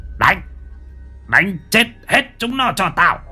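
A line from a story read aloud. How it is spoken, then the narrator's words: Harsh hissing screech. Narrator (Vietnamese): Lão thái gằn giọng rít lên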